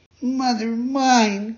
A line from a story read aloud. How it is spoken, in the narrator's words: cried the marionette, scared to death